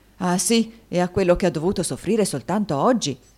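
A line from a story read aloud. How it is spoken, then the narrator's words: Many voices shouting. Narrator (Italian): gridarono molte voci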